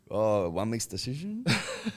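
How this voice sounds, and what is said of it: Put-on mock accent. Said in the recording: “Can't do the accent, dude.”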